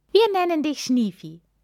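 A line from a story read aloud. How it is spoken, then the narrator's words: Laughing. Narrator (German): sagen lachend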